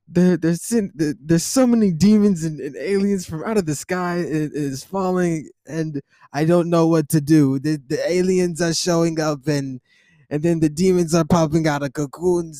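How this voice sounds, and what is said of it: Bad Donald Trump impression. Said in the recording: “terrible Donald Trump impression”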